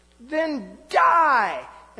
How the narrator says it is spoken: Gozer shrieks

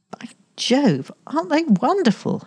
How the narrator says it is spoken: exclaimed

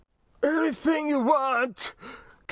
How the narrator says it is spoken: Keffin Hyde sobbed, his plea becoming suddenly audible

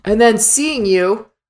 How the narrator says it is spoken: she snarls

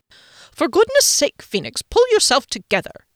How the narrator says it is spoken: snapped

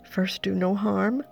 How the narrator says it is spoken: I pleaded, praying to wake that oath in him

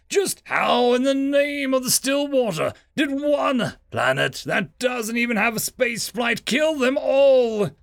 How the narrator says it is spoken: He roared at the helpless Blurb

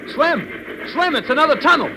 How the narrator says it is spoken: called out

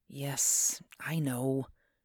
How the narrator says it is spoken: whispered fearfully

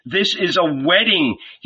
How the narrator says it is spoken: he cried

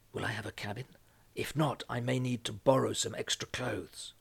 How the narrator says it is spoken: whispered

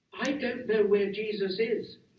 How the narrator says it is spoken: Mary said urgently

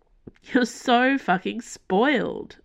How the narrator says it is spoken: Alec laughed

